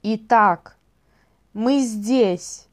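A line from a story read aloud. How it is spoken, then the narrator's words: Menacing. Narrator (Russian): угрожающе произнес лорд Сорокопут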